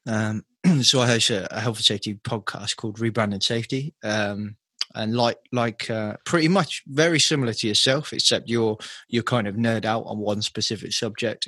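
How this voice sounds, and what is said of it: British English accent. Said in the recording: “all the way from United Kingdom. If you didn't pick up on the accent.”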